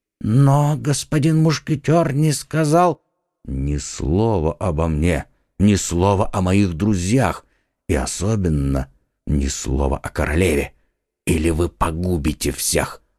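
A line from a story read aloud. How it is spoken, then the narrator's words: Whispered. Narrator (Russian): прошептал Д'Артаньян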